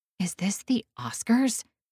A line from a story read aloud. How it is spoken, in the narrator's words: I whisper before I can stop myself